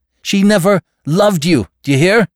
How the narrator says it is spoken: He cried

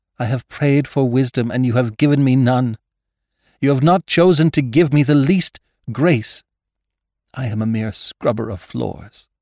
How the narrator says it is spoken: exclaiming angrily

